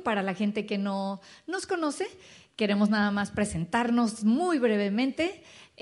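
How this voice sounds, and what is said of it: Mexican Spanish accent. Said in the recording (Spanish): “se dieron cuenta de nuestro acento diferente. Somos mexicanos.”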